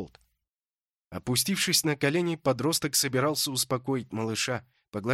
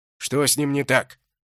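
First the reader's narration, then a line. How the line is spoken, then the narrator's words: Sudden bark. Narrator (Russian): Что-то сообразив, рявкнул всадник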